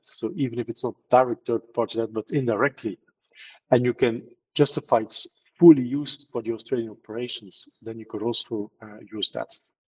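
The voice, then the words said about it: Non-Australian foreign accent. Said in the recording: “as you hear my accent, I'm not Australian at all”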